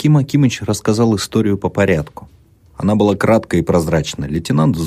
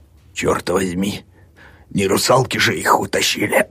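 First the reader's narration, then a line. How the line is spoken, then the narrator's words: Hoarse wheezing, cackling. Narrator (Russian): прохрипел Аким Акимыч, закликотал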